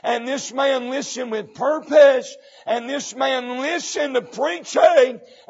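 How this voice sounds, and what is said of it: Strained, worn-out voice. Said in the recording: “My voice is done... I'm struggling”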